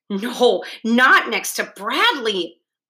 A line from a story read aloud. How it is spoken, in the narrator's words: a girl in the front row exclaimed